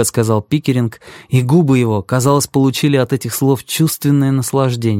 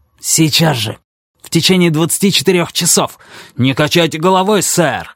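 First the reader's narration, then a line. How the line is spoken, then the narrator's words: Angry shout. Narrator (Russian): зло выкрикнул Пикеринг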